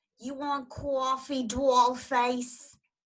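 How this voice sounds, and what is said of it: Imitated Bronx accent. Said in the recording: “I love her accent. ... Bronx accent.”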